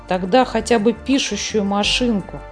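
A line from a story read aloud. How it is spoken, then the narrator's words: Displeased grumble. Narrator (Russian): недовольно проворчал Снорк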